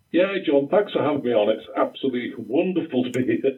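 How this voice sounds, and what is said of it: Thick Newfoundland accent. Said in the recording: “someone with a thicker accent than mine ... how does a Newfoundlander say howdy?”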